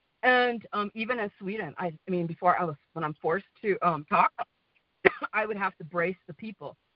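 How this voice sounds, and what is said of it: Western American accent. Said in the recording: “my American accent, which is kind of Western”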